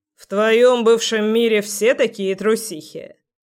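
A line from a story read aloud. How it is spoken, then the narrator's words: Mocking voice close behind. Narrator (Russian): Насмешливо поинтересовался знакомый голос за ухом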